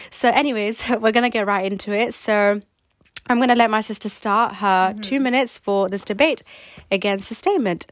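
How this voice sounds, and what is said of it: Sick-sounding voice. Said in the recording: “I'm currently a bit sick. You can probably hear it in my voice”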